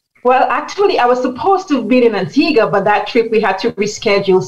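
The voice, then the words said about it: Caribbean St. Lucian accent. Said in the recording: “We can hear from your accent that you are from the Caribbean, and I know you're St. Lucian”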